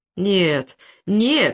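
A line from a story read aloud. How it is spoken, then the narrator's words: Moaning. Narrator (Russian): стонал Самискин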